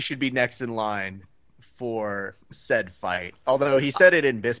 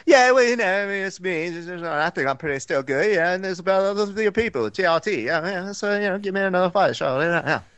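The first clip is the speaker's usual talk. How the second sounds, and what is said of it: Michael Bisping impression, English accent. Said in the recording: “Bisping language ... that's actually ... just doing Michael Bisping ... that good of an accent”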